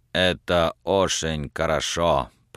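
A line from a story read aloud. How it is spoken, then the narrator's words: Admiring mutter. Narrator (Russian): пробормотал Олаф Хендерсон с глубоким восхищением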